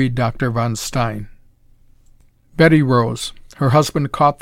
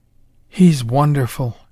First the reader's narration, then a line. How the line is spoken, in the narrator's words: she breathed